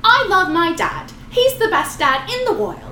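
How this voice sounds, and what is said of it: Australian accent imitating a child. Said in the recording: “is that your Australian accent? ... when she was a child. Accent.”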